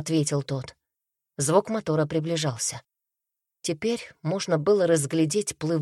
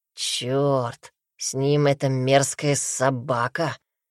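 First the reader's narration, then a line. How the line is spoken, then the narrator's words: Hoarse rasp. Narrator (Russian): прохрипел хряк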